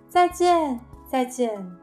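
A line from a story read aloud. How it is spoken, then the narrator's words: Loud farewells. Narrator (Chinese): 爷爷奶奶和乔治叔叔对他们大声说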